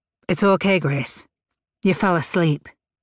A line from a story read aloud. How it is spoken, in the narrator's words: he said